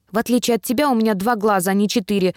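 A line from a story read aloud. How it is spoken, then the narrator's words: Snapping retort. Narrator (Russian): огрызнулся Дживс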